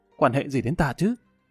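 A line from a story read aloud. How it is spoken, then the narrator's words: Embarrassed soft huff. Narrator (Vietnamese): Tiêu Thanh Tuyền khẽ hừ một tiếng, mặt hơi nóng bừng lên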